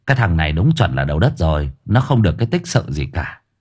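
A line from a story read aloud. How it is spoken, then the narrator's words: Soft sigh. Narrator (Vietnamese): Cậu Cần khẽ thở dài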